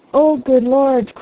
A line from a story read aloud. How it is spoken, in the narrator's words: cried the harvester